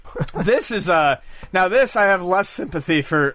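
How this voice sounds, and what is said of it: Voice cracking. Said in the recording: “why is my voice cracking? Like, I haven't hit puberty tonight.”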